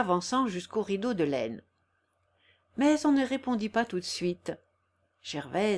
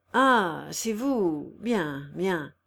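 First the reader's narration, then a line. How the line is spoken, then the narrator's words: Murmured. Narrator (French): murmura-t-il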